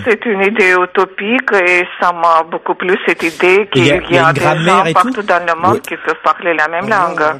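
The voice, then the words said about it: French with a foreign accent. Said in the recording (French): “Je parle, comme vous pouvez remarquer, le français avec un accent.”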